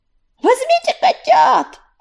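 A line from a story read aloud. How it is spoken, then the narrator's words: Shouting. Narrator (Russian): кричал Огнезвезд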